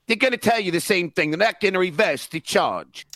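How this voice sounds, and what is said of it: Put-on British accent. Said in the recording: “His British accent is spot on.”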